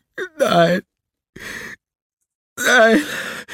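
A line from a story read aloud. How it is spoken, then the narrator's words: Sobbing. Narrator (German): schluchzte er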